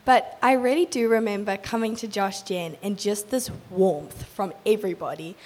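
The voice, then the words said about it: Hoarse, voice mostly lost. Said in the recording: “I've lost my voice, so I do sound a little bit funny”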